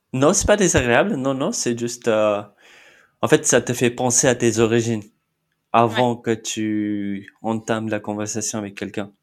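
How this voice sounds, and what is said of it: Slight foreign accent in French. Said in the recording (French): “tu as un petit accent”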